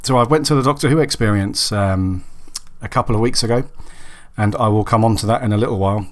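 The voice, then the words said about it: Raspy, husky voice from a cold. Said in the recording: “I've got a bit of a cold, so really sorry if I sound a bit raspy or a little bit husky... I've just got a really, really sore throat and getting over a cold”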